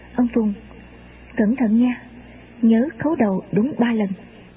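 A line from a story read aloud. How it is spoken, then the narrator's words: Quiet. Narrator (Vietnamese): Anh ta nói khẽ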